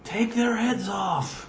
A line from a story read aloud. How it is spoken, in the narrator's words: yelled down